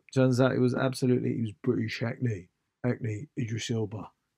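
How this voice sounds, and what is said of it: Rough Idris Elba voice impression. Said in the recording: “Sounds a bit like that. That's not a great impression, but sort of his kind of tone.”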